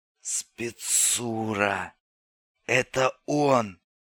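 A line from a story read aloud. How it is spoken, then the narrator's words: Rasped. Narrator (Russian): прохрипел … Лунев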